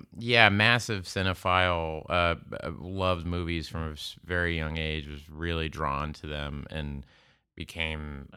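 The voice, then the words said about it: Whiny Midwestern American accent. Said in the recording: “you have the least Oklahoma accent of any Oklahoman I've ever met ... I have just kind of like a weird, whiny Midwestern accent.”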